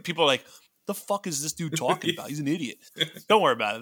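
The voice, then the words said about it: Put-on Massachusetts accent. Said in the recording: “That was just my Massachusetts accent to all the massholes.”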